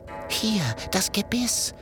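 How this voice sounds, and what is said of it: Whispering. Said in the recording (German): “flüstert”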